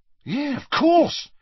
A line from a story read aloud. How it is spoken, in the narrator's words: said Dean excitedly